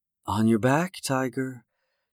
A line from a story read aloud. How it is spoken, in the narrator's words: Joy whispered